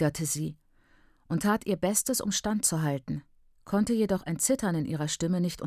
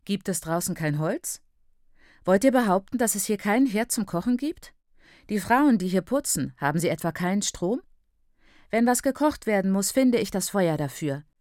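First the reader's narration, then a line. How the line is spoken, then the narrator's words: Loud and boastful. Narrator (German): erklärte laut prahlend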